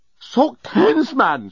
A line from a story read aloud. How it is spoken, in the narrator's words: shouted the journalist